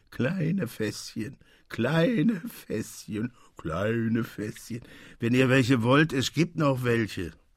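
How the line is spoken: Singsong repetition. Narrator (German): Delphin, den man nach Hause brachte und der mit seiner singenden Stimme wiederholte

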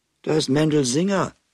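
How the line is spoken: Calling out. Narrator (German): rief Miriam

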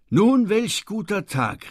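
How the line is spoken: Exclaiming. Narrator (German): rief ich aus

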